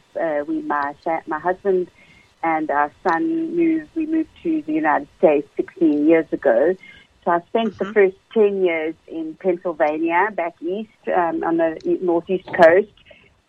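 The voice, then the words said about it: South African accent. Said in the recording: “you have an awesome accent... I'm born and raised in South Africa”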